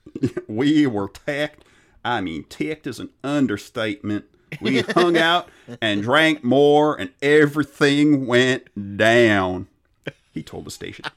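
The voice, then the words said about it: Put-on Southern US accent. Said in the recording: “I could do the southern accent ... I did the southern accent a few weeks ago”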